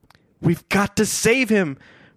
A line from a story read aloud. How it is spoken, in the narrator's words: Frank cried out